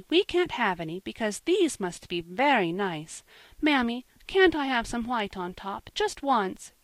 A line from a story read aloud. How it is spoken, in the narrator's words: she pleaded